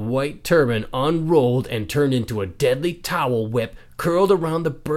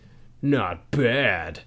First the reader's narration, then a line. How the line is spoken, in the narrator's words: muttered the giant, armor-wearing emperor